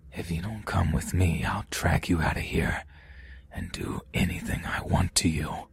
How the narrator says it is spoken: he said in a whispering voice right in my ear

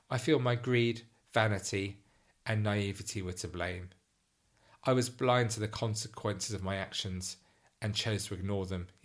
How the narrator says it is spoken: he said

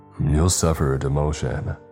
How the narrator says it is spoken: Barr said with a growl

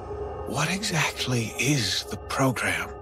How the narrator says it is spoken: whispered

